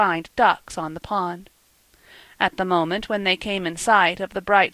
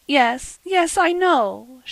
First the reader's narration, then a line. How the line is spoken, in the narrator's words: said tearfully